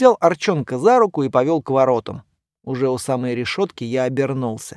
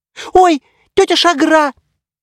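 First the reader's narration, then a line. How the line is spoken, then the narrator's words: Squeaking. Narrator (Russian): пискнул Гаргатунг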